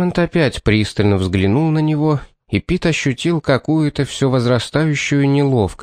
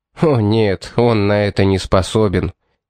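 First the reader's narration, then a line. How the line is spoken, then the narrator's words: Curt laugh. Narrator (Russian): Пит отрывисто рассмеялся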